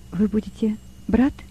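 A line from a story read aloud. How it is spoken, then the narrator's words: Quiet question. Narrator (Russian): она тихо спросила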